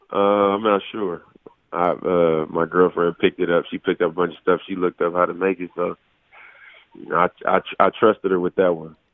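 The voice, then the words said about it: Sick-sounding voice. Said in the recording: “I'm still sick right now. Probably can hear it in my voice”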